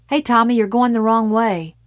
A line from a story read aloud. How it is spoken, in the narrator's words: Brent Gillian yelled